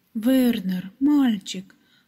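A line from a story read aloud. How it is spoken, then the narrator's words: Exclamation. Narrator (Russian): воскликнула она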